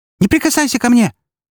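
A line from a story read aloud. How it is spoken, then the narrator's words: Near shriek. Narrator (Russian): практически взвизгнула она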